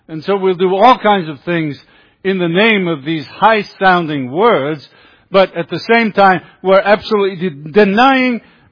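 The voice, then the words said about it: British accent. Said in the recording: “You can tell a little by my accent that I'm from the UK.”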